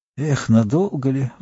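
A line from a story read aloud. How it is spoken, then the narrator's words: Sighing. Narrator (Russian): вздохнул Маслютик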